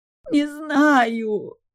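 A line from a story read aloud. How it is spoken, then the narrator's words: Wailing. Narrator (Russian): взвыла я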